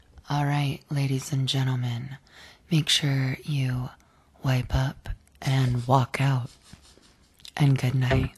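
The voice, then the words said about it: Breathy, sultry sign-off voice. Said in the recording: “saying good night in a breathy, sexy voice.”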